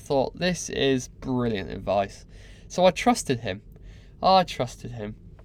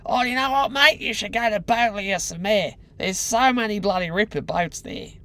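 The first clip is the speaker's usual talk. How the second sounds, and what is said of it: Imitated Australian accent. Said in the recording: “This Australian guy said to me ... It was very Australian. I didn't do his accent any justice.”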